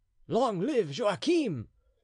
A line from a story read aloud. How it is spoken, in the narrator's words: cried the prisoners